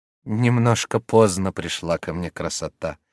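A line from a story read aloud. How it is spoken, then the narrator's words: Sad, smiling. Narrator (Russian): сказала Горбунья, грустно улыбаясь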